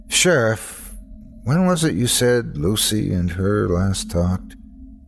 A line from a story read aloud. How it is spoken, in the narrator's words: I asked wearily